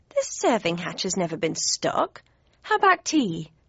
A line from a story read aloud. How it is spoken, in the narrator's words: asked brightly